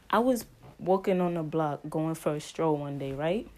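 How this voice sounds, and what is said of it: Put-on New York accent. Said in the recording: “I'm going to finish this episode with a story time in my New York accent”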